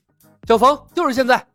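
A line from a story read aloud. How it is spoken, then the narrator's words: Shout. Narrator (Chinese): 李牧同时喊道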